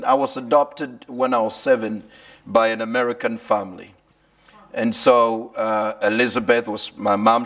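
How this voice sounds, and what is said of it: Mixed Kenyan, American, British accent. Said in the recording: “you may hear a lot of mixture of accents. Maybe you may hear some Kenyan accent, some American accent, and some little bit of British accent.”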